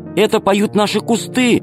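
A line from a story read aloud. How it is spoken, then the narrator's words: Shouting. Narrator (Russian): закричала Алиса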